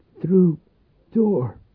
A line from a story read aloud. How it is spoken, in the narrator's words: she croaked